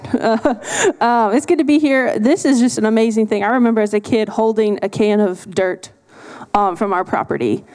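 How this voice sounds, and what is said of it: Texas-influenced accent. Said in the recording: “I'm from Texas now, so I sound different.”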